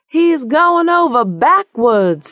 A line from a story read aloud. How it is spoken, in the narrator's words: somebody screamed